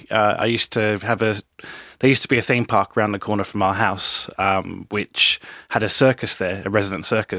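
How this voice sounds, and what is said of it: British accent. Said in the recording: “I was living in the UK, where I was born, obviously by the accent. The accent's come back now.”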